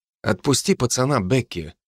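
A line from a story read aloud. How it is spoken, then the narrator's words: Quiet. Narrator (Russian): сказал я негромко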